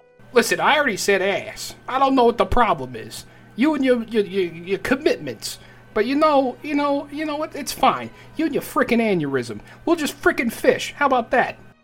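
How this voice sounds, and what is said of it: Put-on New York accent. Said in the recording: “I always love doing the New York accent”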